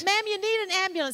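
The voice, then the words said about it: Poor put-on Southern American accent. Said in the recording (Dutch): “with a very southern American accent ... That's a terrible accent.”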